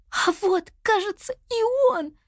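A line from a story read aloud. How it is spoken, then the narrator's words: Frightened whisper. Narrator (Russian): Испуганным шепотом произнесла Нини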